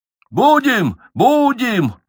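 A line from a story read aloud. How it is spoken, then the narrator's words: Tipsy joyful shout. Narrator (Russian): радостно закричал Меньшиков, принявший очередную порцию Ренского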